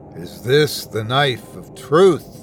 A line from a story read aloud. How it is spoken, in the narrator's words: he called, his voice thundering off the trees